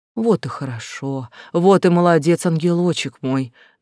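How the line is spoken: Deep purring voice. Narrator (Russian): доносилось грудное мурлыканье

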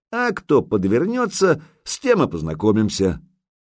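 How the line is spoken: Cheerful, playful. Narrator (Russian): весело подмигнул Илья

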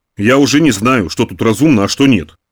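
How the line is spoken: Snorted. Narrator (Russian): фыркнул он

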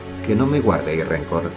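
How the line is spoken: Very soft tone. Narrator (Spanish): dijo en tono muy suave

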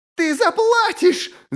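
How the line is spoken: Frenzied shriek. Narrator (Russian): завизжала, ее глаза стали дикими

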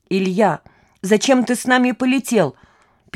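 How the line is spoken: Squeak. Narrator (Russian): пискнула Маша

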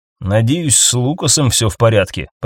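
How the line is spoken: Muttering. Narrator (Russian): пробормотал

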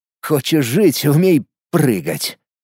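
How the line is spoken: Tired smirk. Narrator (Russian): Устало усмехнулся я

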